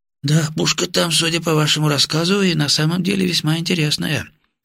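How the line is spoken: Thoughtful mutter. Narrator (Russian): задумчиво пробормотал нарком

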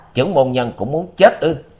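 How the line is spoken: Harsh shout. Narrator (Vietnamese): gằn giọng quát

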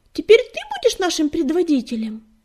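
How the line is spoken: Yelled suddenly. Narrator (Russian): Частокол заорал

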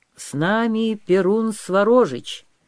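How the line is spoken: Loud. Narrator (Russian): громко сказал Святобор

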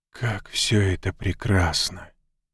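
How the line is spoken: Awestruck whisper. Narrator (Russian): прошептал он, пораженный священным величественным зрелищем

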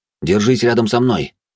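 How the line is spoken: Quick speech. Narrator (Russian): быстро произнес

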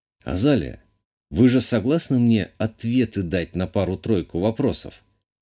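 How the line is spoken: Quiet question. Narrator (Russian): Негромко спросил я

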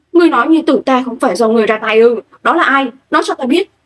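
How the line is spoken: Startled loud shout. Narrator (Vietnamese): Mạn Hạo Đồng giật mình, hét lớn

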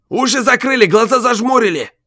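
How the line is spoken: Loud yell. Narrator (Russian): заорал спортивный

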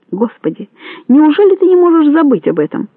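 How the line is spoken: Pleading. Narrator (Russian): взмолился он

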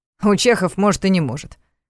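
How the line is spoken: Snort. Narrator (Russian): фыркнул Ваня

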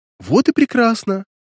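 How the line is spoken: Coo. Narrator (Russian): проворковала Ланета

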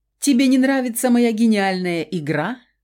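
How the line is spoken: Laughing question. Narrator (Russian): Смеясь, вопросил парень

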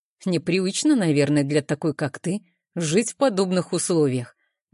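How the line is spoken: Plain. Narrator (Russian): говорит он

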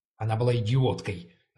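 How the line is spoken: Said sharply. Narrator (Russian): резко сказал я

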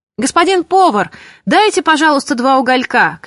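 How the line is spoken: Shouted. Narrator (Russian): кричал Матюш

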